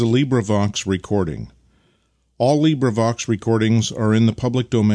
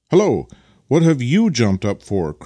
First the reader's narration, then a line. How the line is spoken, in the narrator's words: cried Vasily, suddenly, clearly enjoying